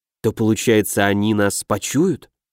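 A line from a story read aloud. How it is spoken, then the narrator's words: Whispered. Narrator (Russian): прошептал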